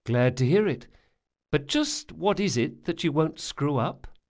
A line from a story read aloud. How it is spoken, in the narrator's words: Bug sighed